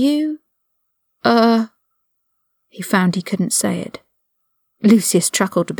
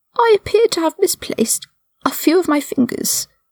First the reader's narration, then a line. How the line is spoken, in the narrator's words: he said in a high, weak voice